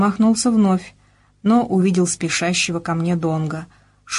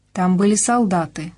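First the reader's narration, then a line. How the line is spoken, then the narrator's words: Plain. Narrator (Russian): сказал он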